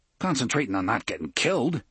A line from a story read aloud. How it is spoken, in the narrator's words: Eddie grunted